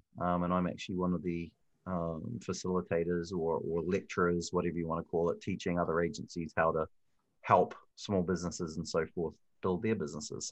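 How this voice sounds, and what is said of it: New Zealand accent. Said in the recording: “a fellow Kiwi ... I can tell that accent anywhere”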